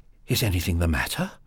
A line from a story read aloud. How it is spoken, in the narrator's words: asked breathlessly